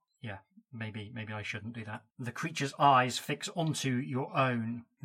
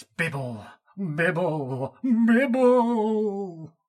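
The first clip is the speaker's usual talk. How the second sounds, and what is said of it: Portentous, dramatic voice. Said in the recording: “in a more portentous voice.”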